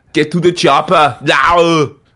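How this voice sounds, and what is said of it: Austrian accent impression. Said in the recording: “Austrian accent? ... an Arnold accent? ... Arnie impressions”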